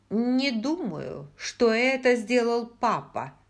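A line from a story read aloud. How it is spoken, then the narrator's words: Stern. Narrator (Russian): сказала Бри, строго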